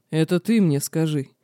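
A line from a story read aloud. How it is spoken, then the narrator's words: Sudden growl. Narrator (Russian): неожиданно прорычал Динар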